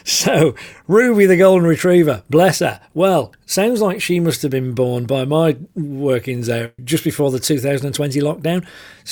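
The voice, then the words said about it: Northern English accent. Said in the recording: “I'm very aware of my northern accent when I say that one word, Bath. You have to put an R in it for me to pronounce it Bath.”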